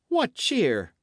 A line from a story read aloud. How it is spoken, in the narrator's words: cried Dick